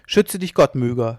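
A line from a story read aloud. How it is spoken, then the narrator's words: Shouted. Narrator (German): schrie Jan Norris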